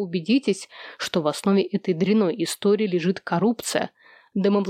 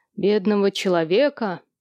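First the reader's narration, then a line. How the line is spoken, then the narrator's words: Solemn declaration. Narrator (Russian): торжественно произнес Сэм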